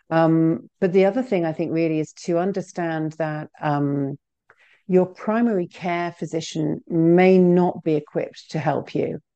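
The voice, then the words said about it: Non-American accent. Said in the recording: “obviously you can tell by my accent that I'm not originally from New Jersey.”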